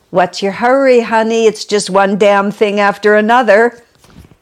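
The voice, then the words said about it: Brooklyn accent voice. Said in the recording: “God spoke to me with a sort of a Brooklyn accent”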